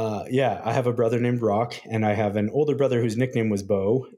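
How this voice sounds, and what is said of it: Usual voice. Nothing is said of it.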